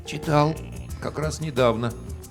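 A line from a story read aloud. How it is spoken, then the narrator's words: Hoarse mumble. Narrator (Russian): севшим голосом пробормотал я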